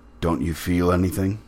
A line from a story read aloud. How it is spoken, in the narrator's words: he said to me very gravely